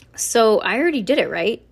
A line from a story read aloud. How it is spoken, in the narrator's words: she asked